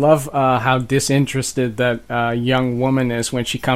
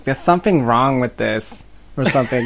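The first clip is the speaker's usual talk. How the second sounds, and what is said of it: Pretty good put-on American accent. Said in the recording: “I don't think I've ever heard you do an American accent before. It's pretty good.”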